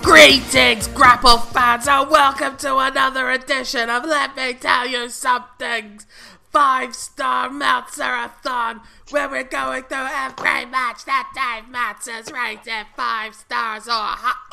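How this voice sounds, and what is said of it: Wrestling commentator voice. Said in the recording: “doing my TNA commentator voice.”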